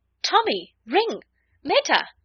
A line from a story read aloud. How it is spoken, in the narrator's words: Bart cried out in amazement